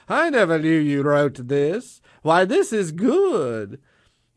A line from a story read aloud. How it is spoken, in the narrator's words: the king laughed maniacally and said